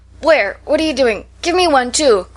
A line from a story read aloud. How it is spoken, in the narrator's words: cried Clover, starting up